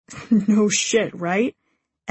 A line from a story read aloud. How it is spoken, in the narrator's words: Evan chuckles